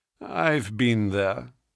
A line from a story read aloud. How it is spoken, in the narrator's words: said he dryly